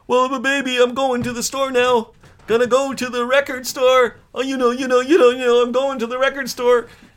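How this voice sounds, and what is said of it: Imitates another person's voice. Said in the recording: “I'll do a monologue as Randy Bachman ... I'll do a little impression of Randy Bachman going to the store”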